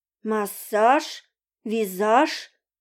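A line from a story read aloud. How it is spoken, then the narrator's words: Muttering, then howling. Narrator (Russian): забормотал Володька в полголоса и, не выдержав, взвыл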